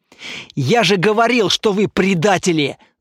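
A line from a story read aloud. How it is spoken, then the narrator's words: Angry retort. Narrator (Russian): зло бросил один из лягов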